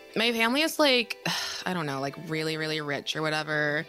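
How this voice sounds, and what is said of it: Heavy vocal fry, teenage voice. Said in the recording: “I'll be leaning heavily into vocal fry for this role because I am 17.”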